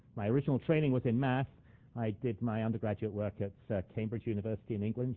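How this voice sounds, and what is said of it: English accent, not Canadian. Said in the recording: “You can probably tell by my accent that I wasn't born and bred in Canada.”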